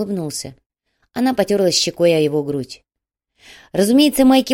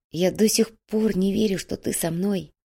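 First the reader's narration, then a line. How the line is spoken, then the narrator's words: Whispered. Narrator (Russian): прошептал Илья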